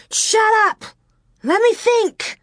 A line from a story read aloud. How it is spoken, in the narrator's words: Laura screeched